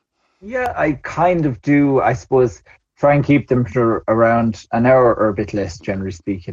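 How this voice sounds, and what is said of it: Rural local accent. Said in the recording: “I might have more of a, I don't know, an agricultural accent ... it is a nice local accent”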